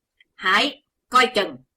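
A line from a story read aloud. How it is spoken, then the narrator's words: Sudden thunderous shout. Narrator (Vietnamese): Đột nhiên có tiếng quát rên động cả tràng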